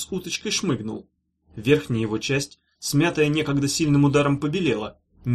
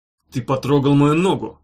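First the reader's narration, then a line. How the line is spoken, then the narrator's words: Through gritted teeth. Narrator (Russian): сквозь зубы сказал Шилов, явно ища, за что его прикончить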